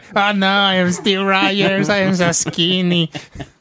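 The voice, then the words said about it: Silly voices acting out movie characters. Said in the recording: “my overall impression of”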